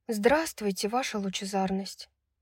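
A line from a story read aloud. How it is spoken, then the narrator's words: Whispered. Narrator (Russian): прошептала Брайс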